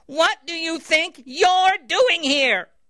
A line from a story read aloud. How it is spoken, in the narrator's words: the angry Lord Jesus screamed